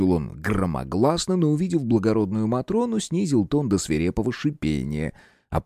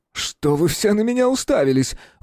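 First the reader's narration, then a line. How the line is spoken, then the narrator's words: Hysterical shout. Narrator (Russian): выкрикнул он истерично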